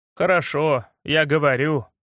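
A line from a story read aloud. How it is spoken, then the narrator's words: Glum. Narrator (Russian): уныло сказал Дима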